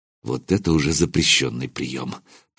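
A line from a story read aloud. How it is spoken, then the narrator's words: Muttering. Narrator (Russian): пробормотал я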